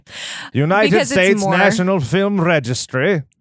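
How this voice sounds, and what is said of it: Put-on British accent. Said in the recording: “I did a British accent”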